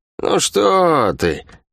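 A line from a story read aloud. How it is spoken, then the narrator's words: False tone. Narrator (Russian): фальшивым тоном произнесла Лавианя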